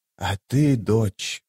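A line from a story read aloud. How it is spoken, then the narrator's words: Quiet feverish voice. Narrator (Russian): спросила Мхиби тихим лихорадочным голосом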